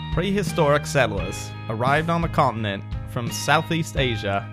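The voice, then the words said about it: Put-on Australian accent. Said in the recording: “in an Australian accent”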